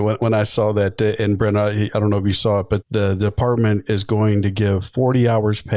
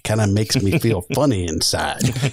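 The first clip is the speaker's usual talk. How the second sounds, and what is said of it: Impression of Major Payne. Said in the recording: “in the words of Major Payne ... It's a great impression”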